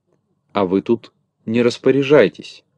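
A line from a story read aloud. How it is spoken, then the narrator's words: Rude reply. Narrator (Russian): грубо ответил Незнайка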